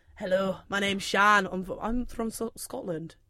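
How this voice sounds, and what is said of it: Poor attempt at Scottish accent. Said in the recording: “try and do Scotland ... that was meant to go into Indian ... I'm that bad”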